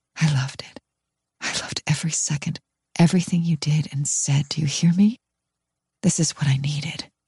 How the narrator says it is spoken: My lips close to his ear, I whisper

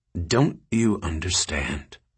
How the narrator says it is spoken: Richards said quietly

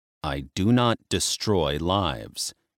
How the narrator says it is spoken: he said tightly

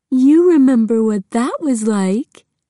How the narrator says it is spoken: she said to the dog in a baby voice

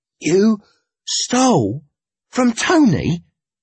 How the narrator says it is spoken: gasped

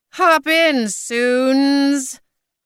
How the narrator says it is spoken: said Maud in a screechy bird voice

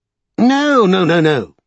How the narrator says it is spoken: cried Grant

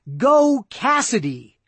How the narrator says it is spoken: one single shout

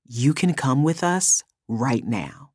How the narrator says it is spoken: lowered his voice, and said

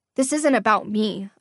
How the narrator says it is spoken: I said, my voice steadier than I felt

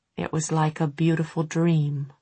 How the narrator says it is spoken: Tessa said gravely, but she smiled when she said it

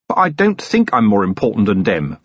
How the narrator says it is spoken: Vimes snapped

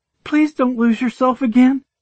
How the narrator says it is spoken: she begged

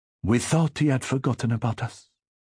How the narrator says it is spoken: Isabel said anxiously

